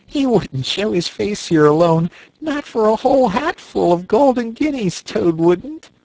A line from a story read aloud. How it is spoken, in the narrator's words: said the rat, laughing heartily